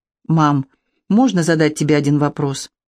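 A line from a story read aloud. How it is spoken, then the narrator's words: Very calm and quiet. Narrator (Russian): Лика очень спокойно и тихо произнесла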